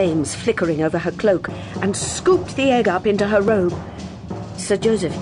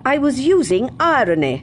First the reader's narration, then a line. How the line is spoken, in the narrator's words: she said sharply